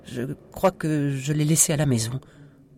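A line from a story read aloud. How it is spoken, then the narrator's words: Tiny stammering voice. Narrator (French): bredouilla Sophie avec une toute petite voix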